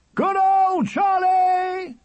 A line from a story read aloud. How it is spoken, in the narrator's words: The roar went all down the ranks of the crowd